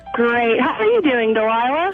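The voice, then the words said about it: Smiling, happy-sounding voice. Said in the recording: “Why are you smiling from ear to ear? I hear it in your voice.”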